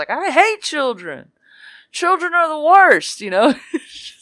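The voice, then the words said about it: Imitates another person's voice. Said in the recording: “Pretty good Hannibal Buress impression there.”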